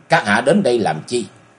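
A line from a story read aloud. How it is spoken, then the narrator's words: Old man's cold question. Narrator (Vietnamese): Lão lạnh lùng hỏi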